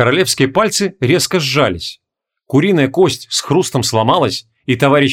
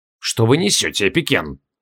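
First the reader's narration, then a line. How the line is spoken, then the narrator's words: Quiet question. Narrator (Russian): тихо спросил король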